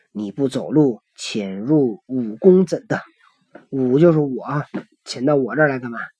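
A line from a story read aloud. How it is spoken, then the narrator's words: Plain. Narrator (Chinese): 行者道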